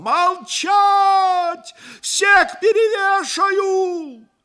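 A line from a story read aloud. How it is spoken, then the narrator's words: Frenzied yell. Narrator (Russian): Потемкин неистово заорал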